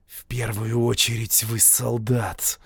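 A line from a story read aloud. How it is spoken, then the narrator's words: Hissed in face. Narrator (Russian): прошипел ему в лицо Ману Баппу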